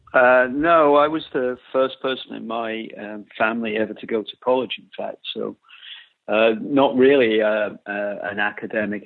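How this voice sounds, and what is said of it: British accent. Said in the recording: “I hear a British accent”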